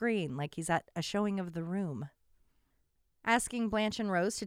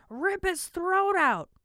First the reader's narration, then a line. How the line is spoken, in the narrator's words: a man screams